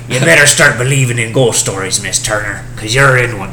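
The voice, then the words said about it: Pirate-style movie villain voice. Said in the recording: “like from Pirates of the Caribbean, or like my best example would be like Captain Barbosa ... that's literally how they all talk, but, like, with a thicker accent.”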